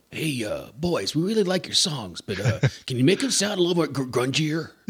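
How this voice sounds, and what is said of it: Put-on Seattle accent. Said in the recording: “That's a good Seattle accent right there, too.”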